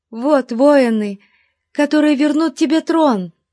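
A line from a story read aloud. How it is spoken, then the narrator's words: Exclaimed. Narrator (Russian): воскликнула Роксана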